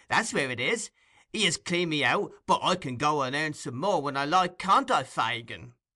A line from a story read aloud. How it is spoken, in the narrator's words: cried Tom triumphantly